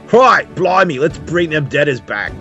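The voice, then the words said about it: Attempted English accent, sounding Australian. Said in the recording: “Let's put our English classes on... That was more Australian, I think... that was in an Australian accent”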